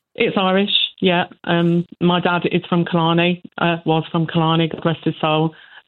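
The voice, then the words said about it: English accent. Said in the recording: “You have an obvious English accent.”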